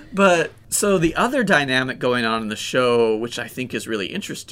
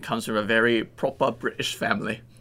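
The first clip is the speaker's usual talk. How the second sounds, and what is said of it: Poor put-on proper British accent. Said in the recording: “Great accent. ... That was bad. That was bad, huh?”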